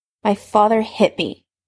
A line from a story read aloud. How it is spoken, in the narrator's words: Severus spat out, angry now